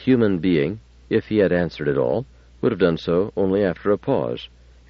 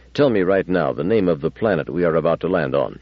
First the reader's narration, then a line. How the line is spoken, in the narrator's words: Bailey said as sharply as he could manage